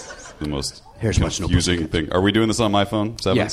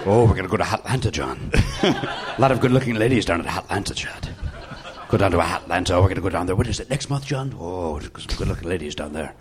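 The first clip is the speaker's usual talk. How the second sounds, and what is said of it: Imitates another person's accent. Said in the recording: “why are you giving him Tom Jones's accent?”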